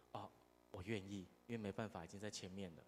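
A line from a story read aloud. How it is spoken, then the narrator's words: Reluctant quiet voice. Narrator (Chinese): 这牧师 情心不甘情不愿，就小声的说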